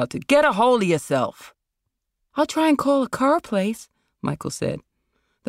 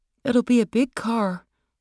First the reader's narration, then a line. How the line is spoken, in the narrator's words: Michael murmured